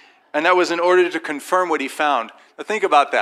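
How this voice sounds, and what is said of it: Usual voice. Nothing is said of it.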